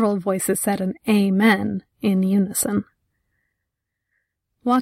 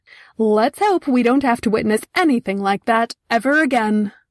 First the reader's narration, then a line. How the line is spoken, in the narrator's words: He shouted